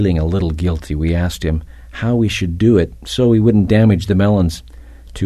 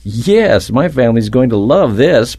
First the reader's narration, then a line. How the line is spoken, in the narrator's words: Brett said excitedly